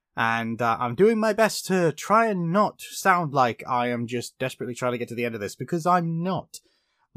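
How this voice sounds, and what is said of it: Tired-sounding voice. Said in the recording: “my voice sounds a bit tired today, because I am ... I do kind of sound like that”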